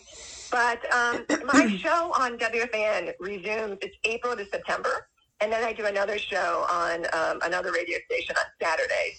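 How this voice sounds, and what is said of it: Rough, unwell-sounding voice. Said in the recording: “Excuse my voice. ... I woke up with a terrible cough this morning.”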